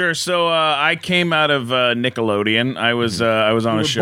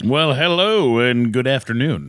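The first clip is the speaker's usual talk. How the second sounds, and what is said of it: Radio announcer voice. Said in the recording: “Nice radio voice. ... That's my radio voice.”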